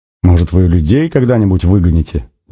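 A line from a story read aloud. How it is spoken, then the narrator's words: Laughing, unable to hold back. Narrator (Russian): Не удержавшись, засмеялся Нанос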